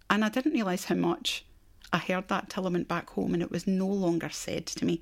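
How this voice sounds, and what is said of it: Scottish accent. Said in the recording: “where's your accent from? ... how long are you going to hold on to that accent? ... I've held on to Scotland”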